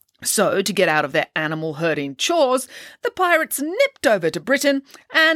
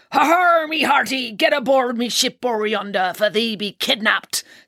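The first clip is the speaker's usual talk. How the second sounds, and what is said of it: Pirate voice. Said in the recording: “But doing a pirate voice is okay ... Everybody loves a pirate voice.”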